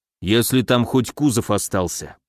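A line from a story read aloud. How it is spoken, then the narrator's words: Grumble. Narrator (Russian): пробурчал он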